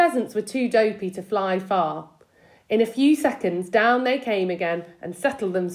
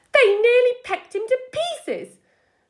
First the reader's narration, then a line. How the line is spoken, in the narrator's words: was crying